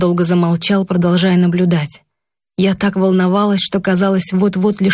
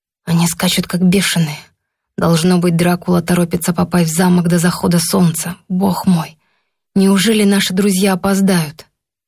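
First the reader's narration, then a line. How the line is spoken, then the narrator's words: Professor muttering. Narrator (Russian): профессор пробормотал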